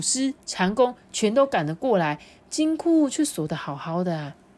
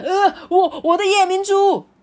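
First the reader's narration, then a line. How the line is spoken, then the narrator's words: Just-woken loud shout. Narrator (Chinese): 财大粗啊，被自己的鼾声吵醒哎，他大声喊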